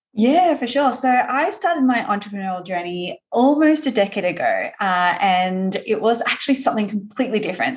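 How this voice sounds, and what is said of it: Australian accent. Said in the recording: “I know that you're from Australia, if people haven't figured that out yet by the accent.”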